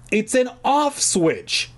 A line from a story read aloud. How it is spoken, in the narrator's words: I shouted to her